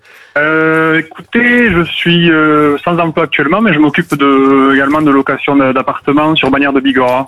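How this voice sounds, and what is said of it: Slight Pyrenees French accent. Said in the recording (French): “petit accent des Pyrénées”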